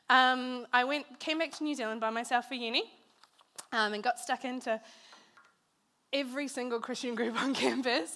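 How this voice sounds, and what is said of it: Unusual mixed international accent. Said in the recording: “So that explains the weird accent. Lots of people ask me. That's where I got it from.”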